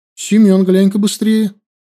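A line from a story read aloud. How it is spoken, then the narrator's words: Worried voice. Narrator (Russian): сказала Наташка озабоченным голосом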